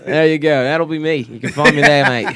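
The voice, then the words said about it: Put-on Australian accent. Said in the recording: “Black guy with an Australian accent. ... You ought to do voice work, man. You're pretty good at the,”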